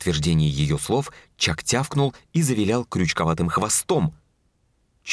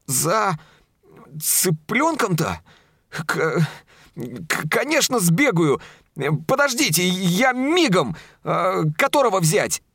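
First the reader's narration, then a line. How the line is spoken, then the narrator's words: Excited stammering young man. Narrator (Russian): даже заикаться начал от волнения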